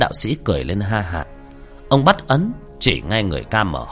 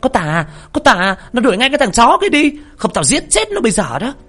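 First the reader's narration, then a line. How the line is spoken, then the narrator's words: Yelling. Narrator (Vietnamese): nó la lên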